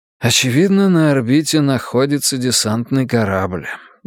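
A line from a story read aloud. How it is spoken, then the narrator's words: Sigh. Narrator (Russian): я вздохнул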